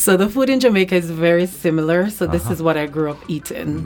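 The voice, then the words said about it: Jamaican accent. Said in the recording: “I'm Jamaican. ... The accent, right?”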